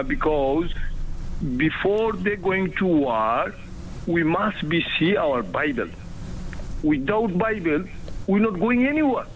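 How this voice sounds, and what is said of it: Noticeable accent, excited delivery. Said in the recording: “I'm not laughing at the accent ... he gets more and more excited”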